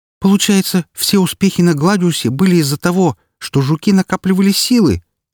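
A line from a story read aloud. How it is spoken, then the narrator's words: Indignant exclamation. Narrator (Russian): с возмущением воскликнула Рокси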